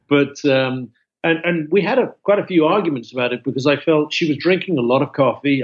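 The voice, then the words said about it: British accent. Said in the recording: “I was a tea drinker, as you could probably tell by my accent. ... Tea and crumpets and a biscuit”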